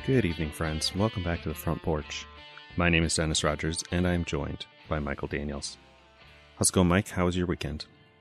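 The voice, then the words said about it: Slow, smooth radio-announcer voice. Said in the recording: “You've got your slow voice going on again ... radio voice ... I unintentionally put on an NPR voice ... time to relax and slow down”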